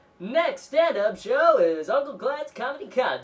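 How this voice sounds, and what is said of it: Announcer-style radio voice. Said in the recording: “doing, like, a radio voice”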